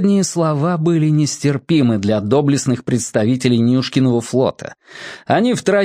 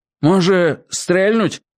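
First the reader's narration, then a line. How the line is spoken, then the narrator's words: Uncertain. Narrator (Russian): неуверенно сказал один из кривоногих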